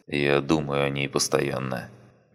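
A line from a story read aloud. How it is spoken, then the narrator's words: Soft gentle voice. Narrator (Russian): мягко сказал он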